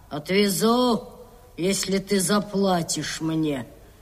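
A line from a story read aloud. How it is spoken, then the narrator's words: Grumble. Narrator (Russian): проворчал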